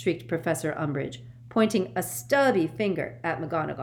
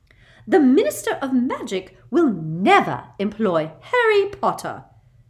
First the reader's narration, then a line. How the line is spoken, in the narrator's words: said Umbridge, her voice rising furiously